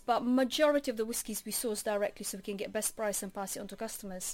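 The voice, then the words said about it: Latvian accent. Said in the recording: “it's a wonderful accent you've got there ... I'm coming from Latvia.”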